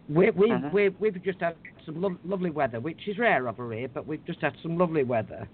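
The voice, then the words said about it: Accent blending Scottish and English. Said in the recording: “You have that accent that's sort of the blend of the Scot and the English”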